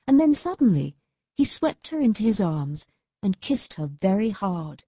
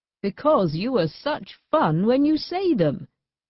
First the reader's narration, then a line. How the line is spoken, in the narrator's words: he answered, laughing still more